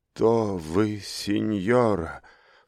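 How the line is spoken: Weak wounded babble. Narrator (Russian): с трудом повернув к ней голову, пролепетал раненый юноша

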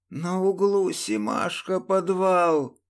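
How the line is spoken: Hoarse rasp. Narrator (Russian): прохрипел Урюк

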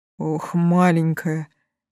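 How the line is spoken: Almost silent breath. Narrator (Russian): почти беззвучно выдохнул дракон

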